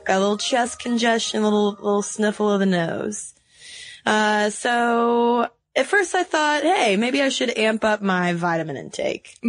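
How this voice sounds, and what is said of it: Raspy voice. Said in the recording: “my raspy voice ... So you have been raspy this week ... It's been a raspy week”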